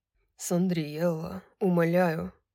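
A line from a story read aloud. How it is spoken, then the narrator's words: Choked hoarse plea. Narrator (Russian): прохрипел Хант, давясь собственными словами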